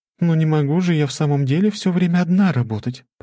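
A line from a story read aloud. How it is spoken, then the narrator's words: Cooing. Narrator (Russian): проворковала она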